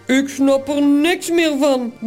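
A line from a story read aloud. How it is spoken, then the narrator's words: Grumbling. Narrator (Dutch): bromt Toos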